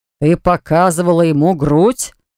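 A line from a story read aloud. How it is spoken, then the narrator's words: Roaring in strange voice. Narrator (Russian): взревел не своим голосом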